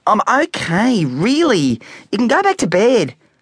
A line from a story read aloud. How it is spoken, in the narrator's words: pleaded Specky, annoyed and embarrassed that his mother was now trying to pull off his pyjama bottoms